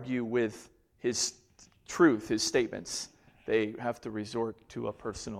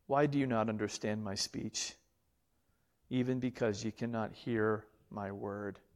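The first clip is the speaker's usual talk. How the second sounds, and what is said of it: Pitiful, tender voice. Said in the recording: “I hear this in just a pitiful, tender voice. I don't hear this in an angry voice.”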